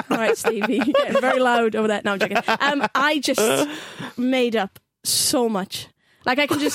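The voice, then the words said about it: Strong Welsh valleys accent. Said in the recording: “You're more valleys than Swansea ... valleys ... Neath ... Hence the strong accent.”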